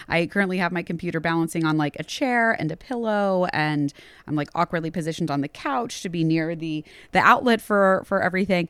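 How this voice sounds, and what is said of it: Slightly raspy voice. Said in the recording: “my voice may not necessarily sound like me, a little raspy”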